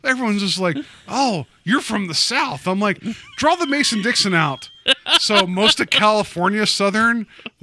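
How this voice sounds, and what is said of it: Southern US accent. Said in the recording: “can't you not hear my southern accent that I have?”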